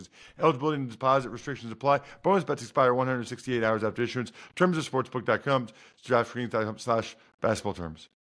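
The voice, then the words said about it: Extremely fast reading. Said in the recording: “that's the fastest I've ever read in my life ... That was as fast as I could possibly do that.”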